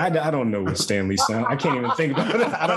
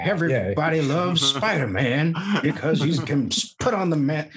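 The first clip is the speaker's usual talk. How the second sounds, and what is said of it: Imitates an old man's voice. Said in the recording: “you got to do it as your Stan Lee ... I'm just doing an old man. I'm doing Jordan Peele's impression of Stan Lee”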